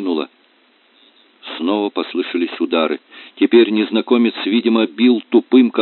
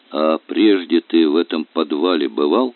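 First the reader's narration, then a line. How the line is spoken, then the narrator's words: Dull. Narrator (Russian): Смирягин тусклым голосом спросил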